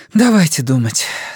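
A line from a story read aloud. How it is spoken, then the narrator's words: Halting sigh. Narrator (Russian): Сага прерывисто вздохнула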